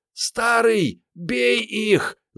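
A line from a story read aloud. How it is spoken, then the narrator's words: Screaming. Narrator (Russian): завопила из дыма Мариетта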